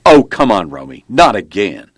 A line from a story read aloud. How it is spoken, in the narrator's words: A male voice responded sharply